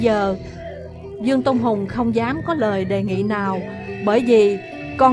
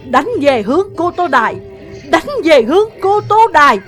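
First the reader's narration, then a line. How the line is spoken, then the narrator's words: Exhausted desperate screaming. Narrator (Vietnamese): Mình đẫm mồ hôi, nhưng Ngô Dương vẫn gào thét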